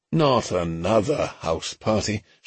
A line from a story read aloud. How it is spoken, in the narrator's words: Sherborne groaned